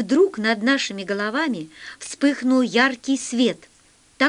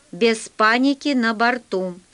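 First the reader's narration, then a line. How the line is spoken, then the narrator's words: Stern. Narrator (Russian): строго сказал Полосков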